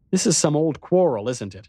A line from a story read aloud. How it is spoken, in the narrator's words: I said impatiently